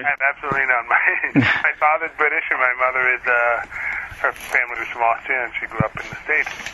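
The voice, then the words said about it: Slight foreign-sounding accent. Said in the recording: “there's some kind of accent there”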